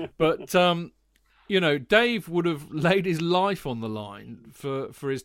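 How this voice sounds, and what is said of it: Usual voice. Nothing is said of it.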